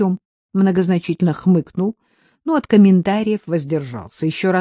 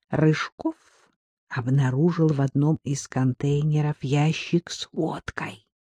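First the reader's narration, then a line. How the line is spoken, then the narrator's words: Whispered. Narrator (Russian): шепотом добавил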